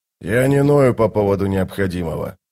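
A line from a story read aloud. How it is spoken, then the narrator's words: Grumbling mutter. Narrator (Russian): буркнул он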